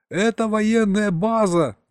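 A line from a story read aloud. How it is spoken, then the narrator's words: Yelling back. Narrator (Russian): заорал я в ответ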